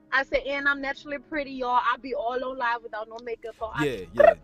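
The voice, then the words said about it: Southern country accent. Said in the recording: “y'all like that country accent”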